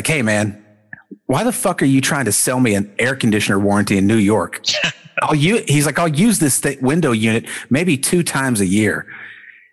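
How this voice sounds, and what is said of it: Put-on New York accent. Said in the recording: “totally awesome New York accent ... it was real New York”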